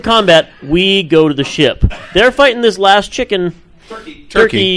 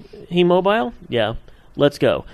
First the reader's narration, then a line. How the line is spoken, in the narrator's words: I calmly say